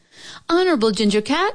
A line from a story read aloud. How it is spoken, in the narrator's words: she called out